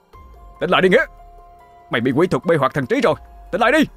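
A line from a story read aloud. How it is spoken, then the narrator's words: Loud shout. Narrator (Vietnamese): Tính vừa hét lớn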